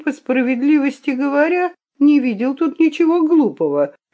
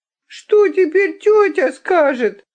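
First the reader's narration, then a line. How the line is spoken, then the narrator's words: Sobbing. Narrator (Russian): рыдала Хетти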